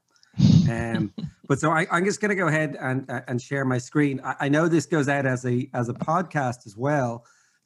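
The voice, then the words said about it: Irish accent, fast speech. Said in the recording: “I'm from Ireland and I speak way too fast ... heavily accented English ... my brogue is getting thicker”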